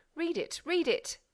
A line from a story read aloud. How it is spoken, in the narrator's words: cried from the opposite side